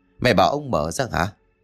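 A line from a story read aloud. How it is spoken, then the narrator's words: Old man muttering. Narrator (Vietnamese): Ông Dinh trong mày lẩm bẩm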